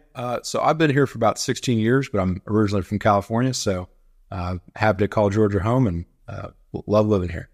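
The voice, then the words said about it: Acquired Southern US accent. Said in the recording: “When did you pick up that accent? ... It does grow on you pretty quick.”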